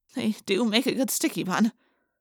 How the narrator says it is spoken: I muttered to Jake

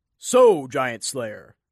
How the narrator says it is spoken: the man boomed

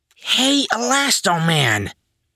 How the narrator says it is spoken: Nerdboy said in a stage whisper

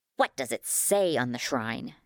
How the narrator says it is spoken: spat

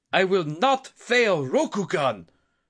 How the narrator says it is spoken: The daimyo shouted back in defiance

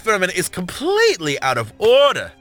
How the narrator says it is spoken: Maximilian shouted, his tone perfect for a television drama

